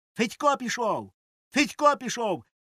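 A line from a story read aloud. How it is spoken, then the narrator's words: Boys shouting. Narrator (Ukrainian): закричали хлопці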